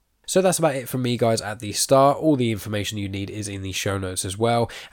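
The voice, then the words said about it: Nasal, congested voice. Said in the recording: “I've got a bit of a cold at the moment, so my voice is a little bit more nasally than usual”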